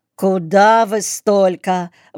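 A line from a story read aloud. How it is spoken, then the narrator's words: Exclaiming. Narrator (Russian): воскликнула хозяйка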